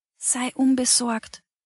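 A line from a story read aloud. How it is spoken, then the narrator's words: Whisper. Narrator (German): flüsterte ihm Frau Mattis zu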